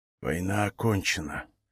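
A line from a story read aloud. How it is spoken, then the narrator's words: Whispered. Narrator (Russian): прошептал Ларан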